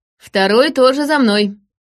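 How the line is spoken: Cheerful voice, serpent. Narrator (Russian): донесся до меня веселый голос змея

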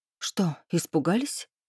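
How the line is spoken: Breathed out. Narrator (Russian): выдохнула я

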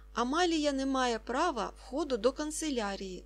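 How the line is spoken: Plain. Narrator (Ukrainian): сказав Варнава

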